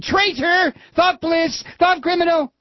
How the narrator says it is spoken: they were both ... shouting

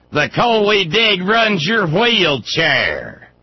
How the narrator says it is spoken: And screamed

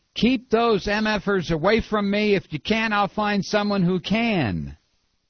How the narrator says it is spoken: He screamed at an aide backstage

